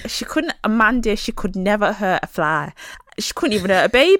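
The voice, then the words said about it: Put-on Cheshire accent. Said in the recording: “they would have that accent, because they're from Cheshire”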